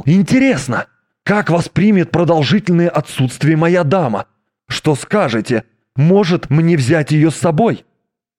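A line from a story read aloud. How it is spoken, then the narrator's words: Sudden exclamation. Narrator (Russian): он вдруг воскликнул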